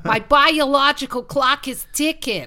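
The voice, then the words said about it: Jersey accent, Marisa Tomei impression. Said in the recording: “I love the Jersey. My favorite ever, like, I think one of my favorite bits of acting is Marissa Tomei and My Cousin Vinny ... Really good accents.”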